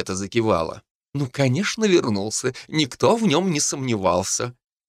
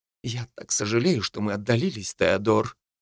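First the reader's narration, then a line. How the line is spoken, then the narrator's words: Quiet and sad. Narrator (Russian): тихо и печально сказала моя новоиспеченная матушка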